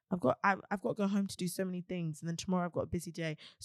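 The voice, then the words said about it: Tired, fatigued, slightly hoarse voice. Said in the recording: “my voice sounds like this ... a little bit hoarse ... it's not even hoarse, it's just tired ... it doesn't hurt to speak, it just sounds fatigued”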